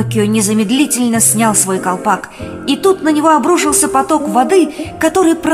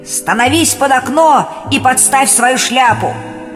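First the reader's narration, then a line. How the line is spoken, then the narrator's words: Old man shouting. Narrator (Russian): старик крикнул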